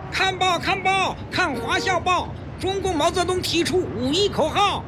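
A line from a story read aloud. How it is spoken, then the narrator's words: Boy hawking loudly. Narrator (Chinese): 一个报童叫卖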